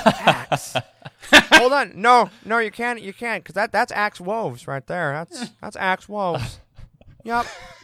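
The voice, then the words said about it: Imitates another person's voice. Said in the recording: “That's such a good George Lucas impression.”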